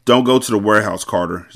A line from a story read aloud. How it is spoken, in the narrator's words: Zaire said